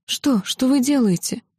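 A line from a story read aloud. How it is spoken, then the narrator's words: Frightened whisper. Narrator (Russian): испуганно прошептала я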